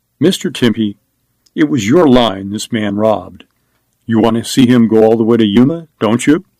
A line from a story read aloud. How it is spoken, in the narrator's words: Scallon said calmly